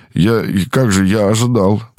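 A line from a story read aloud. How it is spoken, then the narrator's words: Babbling. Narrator (Russian): пролепетал профессор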